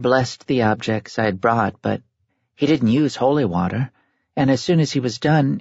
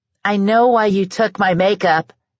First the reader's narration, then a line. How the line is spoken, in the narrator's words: she shouted